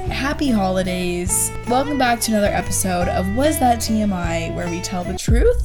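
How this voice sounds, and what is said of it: Voice sounds a little off. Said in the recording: “why does ... sound like this? Why does her voice sound like this? ... she seems a little, I don't know, something seems a little bit off ... One, I'm drunk.”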